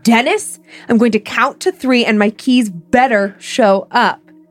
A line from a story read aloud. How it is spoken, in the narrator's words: Too tired to deal with his shit that day, yelled